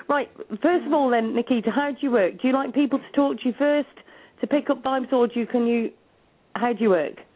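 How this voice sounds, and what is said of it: Scouse accent. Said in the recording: “this Scouse accent”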